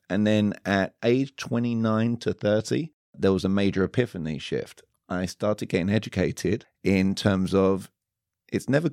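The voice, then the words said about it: Fancy, smart-sounding foreign accent. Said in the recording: “speaking with this glorious accent over here, and all of a sudden it sounds very fancy, very smart”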